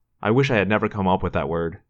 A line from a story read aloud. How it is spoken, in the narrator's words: Marco said